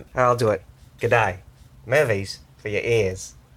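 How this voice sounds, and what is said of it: Bad put-on Australian accent. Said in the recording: “Should we do this all in an Australian accent? ... Why are you so terrible at the accent?”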